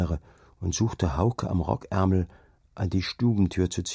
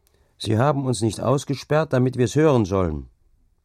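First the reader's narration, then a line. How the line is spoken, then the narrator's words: Calling back. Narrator (German): rief er zurück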